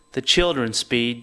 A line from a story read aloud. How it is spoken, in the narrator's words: your mother says